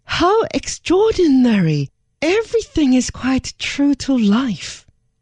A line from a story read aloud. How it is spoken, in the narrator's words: This caused Her Majesty even more surprise ... caused her to exclaim